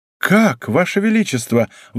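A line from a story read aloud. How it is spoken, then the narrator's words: Feigned surprised exclamation. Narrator (Russian): воскликнула молодая королева с неподражаемым искусством, разыгрывая из себя удивленную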